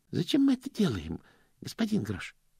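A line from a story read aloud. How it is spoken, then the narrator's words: Timid question. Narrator (Russian): робко спросил Стэнли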